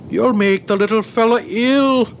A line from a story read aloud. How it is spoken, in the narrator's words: cried his mother, beginning to fear for him